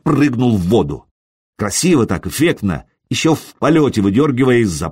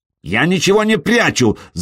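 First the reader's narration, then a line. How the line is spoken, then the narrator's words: Shouting. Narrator (Russian): закричал Траен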